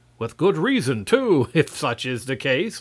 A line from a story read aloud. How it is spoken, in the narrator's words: laughed Marvel